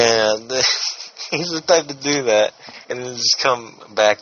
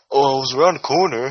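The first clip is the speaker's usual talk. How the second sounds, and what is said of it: Impression of a friend. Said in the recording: “good impression ... That is amazing.”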